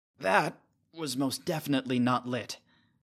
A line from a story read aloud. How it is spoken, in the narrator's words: Nick adds irritably